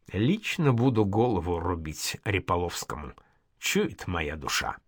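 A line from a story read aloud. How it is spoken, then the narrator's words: Quiet, older man. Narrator (Russian): сказал пожилой стрелец и добавил тихо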